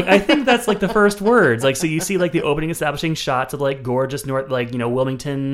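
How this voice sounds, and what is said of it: Usual voice. Nothing is said of it.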